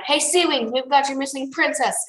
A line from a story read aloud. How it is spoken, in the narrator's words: Should we shout